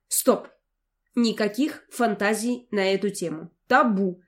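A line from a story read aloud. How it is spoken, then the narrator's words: Stern self-command. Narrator (Russian): приказала себе строго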